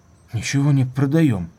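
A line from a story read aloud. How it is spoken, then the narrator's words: Weary, frightened. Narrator (Russian): сказал он утомленно и почему-то испуганно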